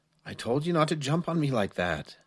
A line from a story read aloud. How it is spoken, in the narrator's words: Chris said under his breath